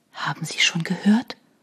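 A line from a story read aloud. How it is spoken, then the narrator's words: Barely audible whisper. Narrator (German): flüsterte sie kaum hörbar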